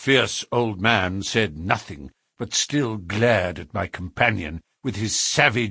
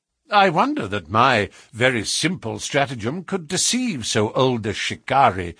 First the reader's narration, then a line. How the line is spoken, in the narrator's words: said Holmes